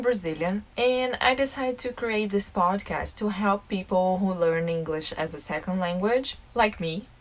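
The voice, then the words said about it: Non-native English accent. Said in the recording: “I have an accent, it's normal. English is my second language”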